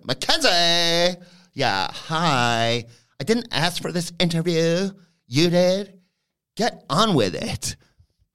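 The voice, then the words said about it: Imitates another person's voice. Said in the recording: “I'm going to have to do an impression here... Start my impression job.”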